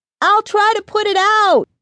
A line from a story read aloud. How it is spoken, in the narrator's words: she yelled